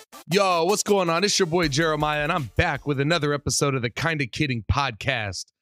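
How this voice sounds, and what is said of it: Congested, stuffy-nosed voice. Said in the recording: “my voice sounds the way it sounds right now, well, ... has a cold ... It's the sniffles ... I got a case of the congestion.”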